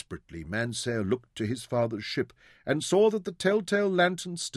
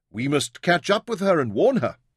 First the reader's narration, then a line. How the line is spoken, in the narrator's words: exclaimed